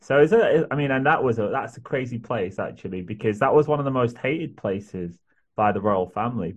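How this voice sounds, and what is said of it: Northern English, Yorkshire-area accent. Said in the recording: “northern English approach ... I'm not sure where your accent's from. I would think it's probably about North Yorkshire somewhere.”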